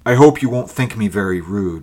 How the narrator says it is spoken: I said

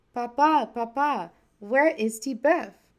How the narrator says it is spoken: the children called out

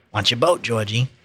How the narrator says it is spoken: Pennywise asked

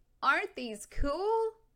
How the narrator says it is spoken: Adrian squeals saying

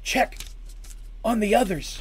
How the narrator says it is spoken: she gasped

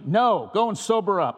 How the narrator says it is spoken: replied sharply

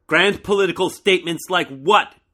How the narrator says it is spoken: aggressor shouted

